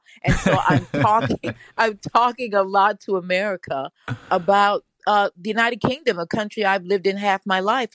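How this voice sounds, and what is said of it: American accent. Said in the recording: “I sound like an American a lot now.”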